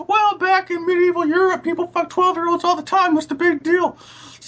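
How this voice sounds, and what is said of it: Mock voice of someone with bad opinion. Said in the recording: “That was a good impression of somebody with a bad opinion. ... That's the official bad opinion voice.”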